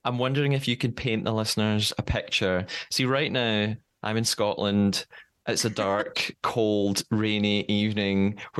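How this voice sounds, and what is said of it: Mild Scottish accent. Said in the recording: “is your accent like the typical Scottish accent? ... his is a lot heavier than yours ... I don't have a particularly strong accent.”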